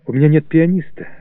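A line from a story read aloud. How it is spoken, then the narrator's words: Timid objection. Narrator (Russian): робко возражал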